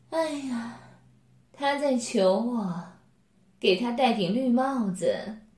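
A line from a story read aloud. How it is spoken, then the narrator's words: Amused, meaningful. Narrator (Chinese): 柳丽艳……笑眼中带有意味深长地说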